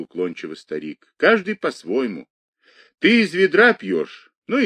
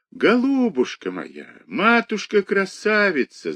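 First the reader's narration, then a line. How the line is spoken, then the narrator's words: Tender, tearful voice. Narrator (Russian): заговорил вдруг Вася ласковым плачущим голосом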